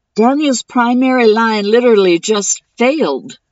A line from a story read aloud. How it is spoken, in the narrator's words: Seven shouted